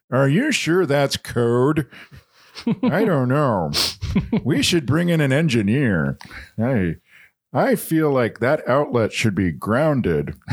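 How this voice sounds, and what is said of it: Ted Koppel impression. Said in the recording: “doing an impression of somebody like out of their element, like, yeah, Ted Koppel in a home inspection”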